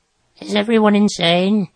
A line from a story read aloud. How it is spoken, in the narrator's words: Groverbs croaked